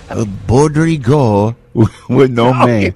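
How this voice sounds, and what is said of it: Put-on Japanese accent. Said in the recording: “Say it in a Japanese accent ... That's terrible ... an exact dead-on impression”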